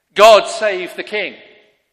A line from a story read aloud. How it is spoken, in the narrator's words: The people we shout